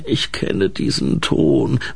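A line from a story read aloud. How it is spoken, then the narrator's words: Sleepy grumble. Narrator (German): brummte die Orchidee schlaftrunken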